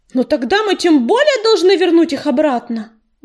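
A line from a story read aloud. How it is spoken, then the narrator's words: Shouted. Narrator (Russian): выкрикнул он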